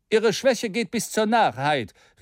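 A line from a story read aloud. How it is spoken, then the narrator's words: Stranger exclaiming, bad-tempered. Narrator (German): rief der Unbekannte in übel gelauntem Ton aus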